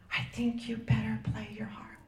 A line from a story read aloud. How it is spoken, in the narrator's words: His aide whispered